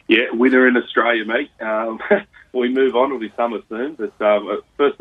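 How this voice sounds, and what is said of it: Voice rough from illness. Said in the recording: “Excuse my voice, but I'm a little bit under the weather”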